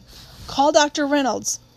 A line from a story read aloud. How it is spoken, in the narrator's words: Atticus' voice came sharply from Jim's room